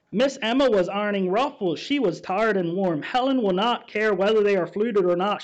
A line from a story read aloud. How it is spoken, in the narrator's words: she said